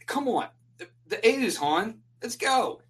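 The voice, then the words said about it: Put-on Baltimore accent. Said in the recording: “that's a Baltimore accent.”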